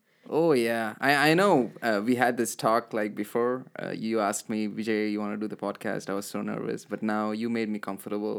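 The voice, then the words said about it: Strong accent. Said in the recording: “I really have a really strong accent”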